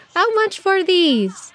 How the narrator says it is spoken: she asked Abu Hassan, eyes sparkling with laughter

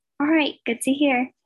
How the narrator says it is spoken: he said happily

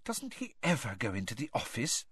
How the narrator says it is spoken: Hermione whispered suddenly

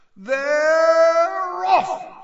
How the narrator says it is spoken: screamed Bagman

